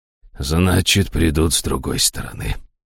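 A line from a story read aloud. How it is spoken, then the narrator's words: Gloomy curt remark. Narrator (Russian): мрачно бросил жрец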